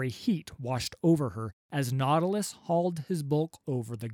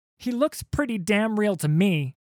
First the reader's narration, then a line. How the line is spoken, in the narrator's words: shouted Sarah, over the cacophony of smashing wood, tearing sails, and terrified screams